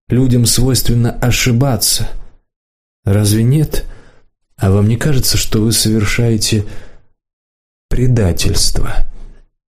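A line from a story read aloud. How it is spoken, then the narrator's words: Quiet rustling whisper. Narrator (Russian): Негромко спросил, прямо-таки прошелестел Саша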